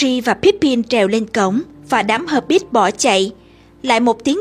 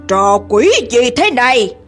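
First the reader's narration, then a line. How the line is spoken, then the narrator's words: Growling. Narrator (Vietnamese): hắn gầm gừ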